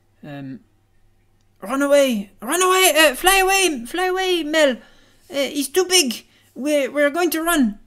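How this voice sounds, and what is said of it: Put-on French accent, shouting. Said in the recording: “she says it in a French accent”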